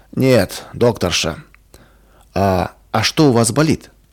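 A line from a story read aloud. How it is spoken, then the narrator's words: Curt snap. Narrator (Russian): Больной сердито посмотрел на Ваньку и резко бросил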